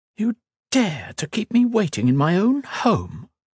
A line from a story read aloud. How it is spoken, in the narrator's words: Her voice was melodic and richly feminine